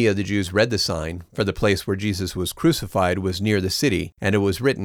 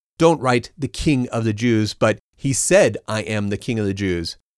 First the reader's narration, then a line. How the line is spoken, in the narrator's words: Pilate answered